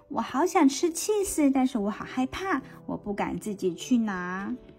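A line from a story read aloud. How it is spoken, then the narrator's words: Sighing. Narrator (Chinese): 它叹气着说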